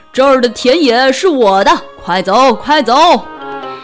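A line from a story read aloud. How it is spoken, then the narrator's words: Loud shout. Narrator (Chinese): 马大声地喊道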